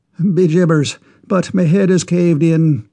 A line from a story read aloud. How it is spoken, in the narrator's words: exclaimed the Irishman